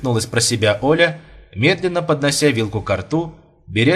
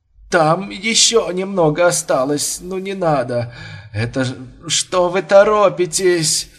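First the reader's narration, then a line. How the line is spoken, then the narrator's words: Groaning mutter. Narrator (Russian): стоная забормотал Бурмистров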